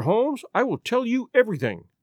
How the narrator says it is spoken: cried the lady

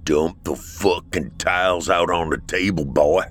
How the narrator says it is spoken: said gruffly

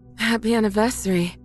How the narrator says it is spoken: my wife says between pants

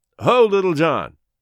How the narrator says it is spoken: called out Robin

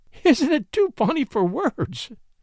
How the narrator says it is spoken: she laughed bravely through her tears

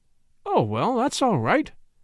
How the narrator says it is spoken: exclaimed the young man cheerfully

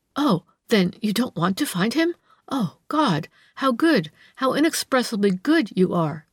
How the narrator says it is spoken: stammered the woman, seizing at some vague hope in her distraught heart

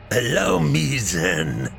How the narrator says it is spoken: the Soviet said with a sadistic sneer

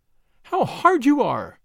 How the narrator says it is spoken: cried

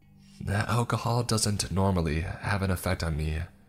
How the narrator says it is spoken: he explained wistfully

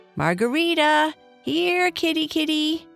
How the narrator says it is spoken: Libby called out again

